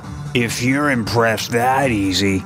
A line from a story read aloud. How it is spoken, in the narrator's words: slurred